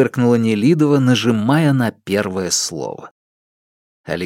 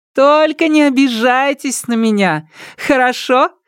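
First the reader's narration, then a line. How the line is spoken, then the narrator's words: Cheerful call after someone. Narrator (Russian): весело крикнула Нелидова ему вслед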